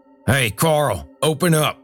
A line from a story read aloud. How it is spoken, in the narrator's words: Earl shouted